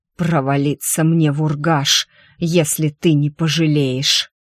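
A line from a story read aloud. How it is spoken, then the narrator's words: Hissed with hatred. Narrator (Russian): С ненавистью прошипел Бастерхази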